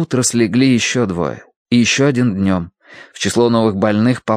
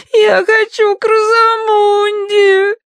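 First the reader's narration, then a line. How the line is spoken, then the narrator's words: Sobbing. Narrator (Russian): рыдала она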